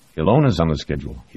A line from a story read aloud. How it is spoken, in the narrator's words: he said